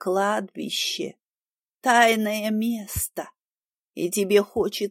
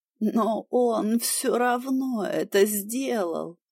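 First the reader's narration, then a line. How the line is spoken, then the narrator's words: Nearly moaning. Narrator (Russian): почти простонал Джад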